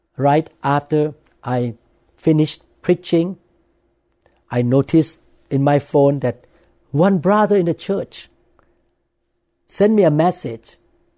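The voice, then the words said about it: Non-native English accent. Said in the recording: “corrected my accent. The English word that I say was wrong, because I'm not American born. I did not come into the world with English speaking parents. So sometimes I say English word with the wrong accent.”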